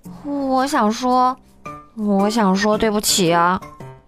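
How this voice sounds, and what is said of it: Quiet mumbling. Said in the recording (Chinese): “小声咕哝着”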